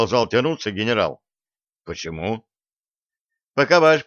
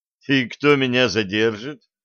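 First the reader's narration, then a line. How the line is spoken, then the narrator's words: Mocking. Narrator (Russian): насмешливо спросил Блад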